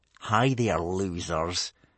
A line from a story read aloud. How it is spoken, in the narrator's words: sneered Snotlout, a tall, mean boy